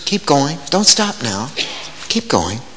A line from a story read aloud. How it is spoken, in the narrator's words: He whispers